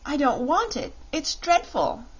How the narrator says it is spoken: she exclaimed

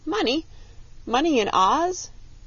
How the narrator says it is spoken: cried the Tin Woodman

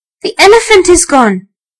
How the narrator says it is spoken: he cried

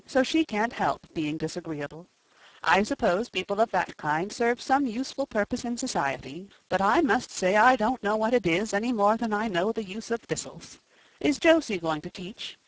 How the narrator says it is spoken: said Marilla sharply

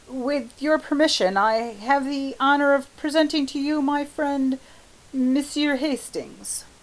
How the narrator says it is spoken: Clifford, very red, stammered

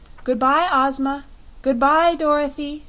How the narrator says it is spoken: cried a voice they knew belonged to Polychrome

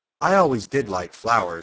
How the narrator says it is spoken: said the Lion

